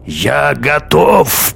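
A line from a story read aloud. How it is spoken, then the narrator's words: Old man's hoarse rasp. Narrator (Russian): прохрипел старик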